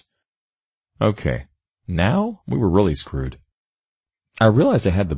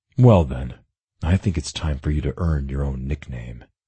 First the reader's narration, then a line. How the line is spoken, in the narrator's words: I murmured